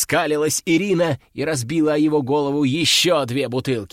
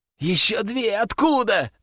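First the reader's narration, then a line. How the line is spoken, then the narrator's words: Wailing. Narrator (Russian): взвыл он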